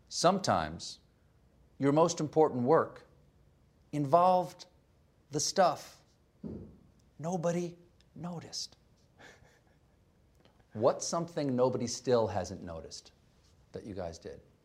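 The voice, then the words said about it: Imitation of another speaker's slow reading. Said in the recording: “that was an imitation of me, that was terrible ... that's how slowly you read your book”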